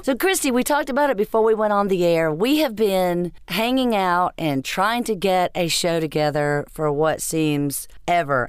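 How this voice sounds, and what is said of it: Froggy, sick-sounding voice. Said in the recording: “my voice sounds kind of weird, maybe a little sick, but I've been sick for 3 weeks ... froggy”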